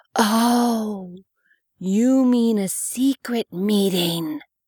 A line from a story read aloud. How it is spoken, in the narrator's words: she whispered loudly